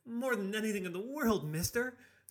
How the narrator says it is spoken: screamed the young Stegman, spittle flying everywhere

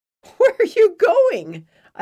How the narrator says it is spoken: I asked between laughs

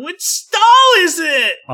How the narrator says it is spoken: Austin whined

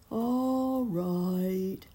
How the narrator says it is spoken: said sleepily

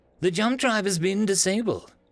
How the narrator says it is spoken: a technician squeaked

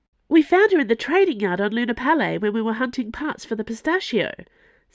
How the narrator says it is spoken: said Planchet excitedly

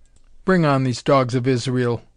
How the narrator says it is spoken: growled Altorius

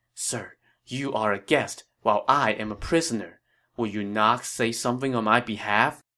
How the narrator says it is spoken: Lü Bu whispered to Liu Bei

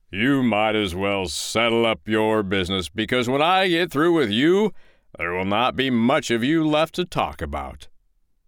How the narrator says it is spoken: called out

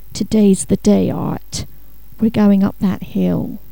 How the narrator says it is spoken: Aware of his hot cheeks, he had muttered

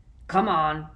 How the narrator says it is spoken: growled Moody

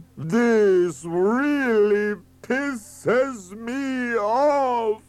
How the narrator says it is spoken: bellowed Vanni Fucci

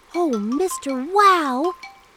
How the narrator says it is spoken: exclaimed Dax, captivated by the beauty of the potion

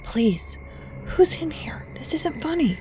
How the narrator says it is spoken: whispered again

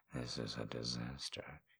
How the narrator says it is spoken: murmurs

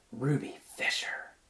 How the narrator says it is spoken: she whispered

